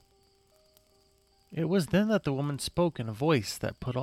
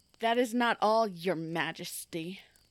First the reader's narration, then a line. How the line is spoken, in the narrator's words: she spat out as she addressed him as such, with as much vile and despise that she could muster